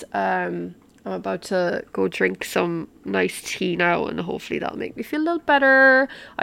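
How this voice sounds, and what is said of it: Hoarse voice. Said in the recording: “I really apologize for my voice today. ... I've got like a cough coming on. I'm hoarse.”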